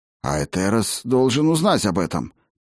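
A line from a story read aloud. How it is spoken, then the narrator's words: Muttered. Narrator (Russian): пробормотал Флурум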